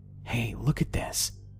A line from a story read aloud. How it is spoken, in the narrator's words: whispered